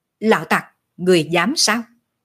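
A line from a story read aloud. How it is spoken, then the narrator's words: Cold. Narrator (Vietnamese): một người lạnh lùng nói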